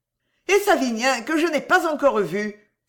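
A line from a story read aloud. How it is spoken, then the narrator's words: Exclaiming. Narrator (French): s'écria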